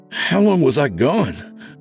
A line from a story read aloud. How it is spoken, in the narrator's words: Broderick breathlessly asked